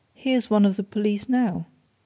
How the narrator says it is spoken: said Bryce calmly

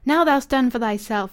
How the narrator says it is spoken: he cried in the dialect

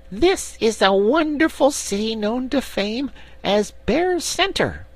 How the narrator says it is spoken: the little brown bear said in a proud and impressive voice, although it still squeaked

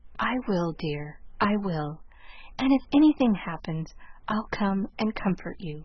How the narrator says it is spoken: whispered Lurie

